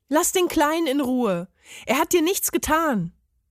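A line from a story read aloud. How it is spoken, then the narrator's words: Called out. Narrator (German): rief er dem Parmesan zu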